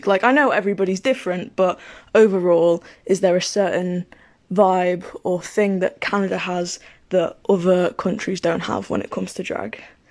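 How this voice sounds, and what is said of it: British accent. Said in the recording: “sounds very cool in your British accent.”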